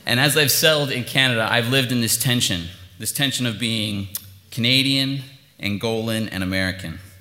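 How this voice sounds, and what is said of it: Speaks with a drawl. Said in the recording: “my accent ... it was just very obvious that I was not from Vancouver ... the drawl just won't go away”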